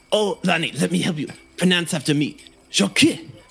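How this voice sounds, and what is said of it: Put-on French accent. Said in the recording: “I recently downloaded the American knowledge on French culture and revolutionaries, and so I have adopted this accent.”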